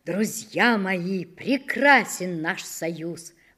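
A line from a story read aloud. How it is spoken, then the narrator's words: Exclaimed. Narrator (Russian): воскликнул подкидыш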